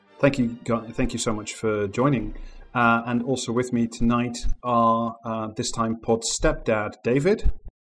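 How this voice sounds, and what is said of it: Formal newsreader-style clear diction. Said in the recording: “doing his newsreader voice ... you're speaking in your proper diction and you're making an effort to be very audible and understandable and not your usual kind of self”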